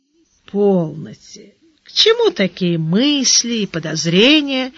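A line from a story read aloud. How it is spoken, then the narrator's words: Gentle. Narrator (Russian): мягко сказал Гаудин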